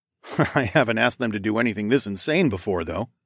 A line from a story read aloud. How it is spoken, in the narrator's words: I chuckled